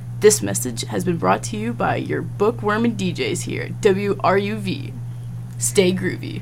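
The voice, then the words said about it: Radio DJ announcer voice. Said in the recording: “That was such a DJ voice.”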